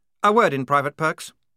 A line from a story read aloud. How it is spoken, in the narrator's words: snapped Blouse